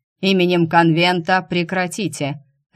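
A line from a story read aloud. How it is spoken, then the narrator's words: Barked. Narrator (Russian): рявкнул Дайм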